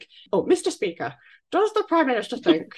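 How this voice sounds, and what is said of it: Keir Starmer impression. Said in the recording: “my Keir Starmer impression ... It's very good.”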